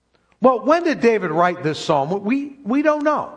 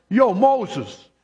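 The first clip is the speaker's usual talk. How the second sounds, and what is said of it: Put-on Brooklyn accent. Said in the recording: “How do you say that with a Brooklyn accent?”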